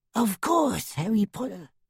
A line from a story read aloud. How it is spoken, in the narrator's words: whispered the little elf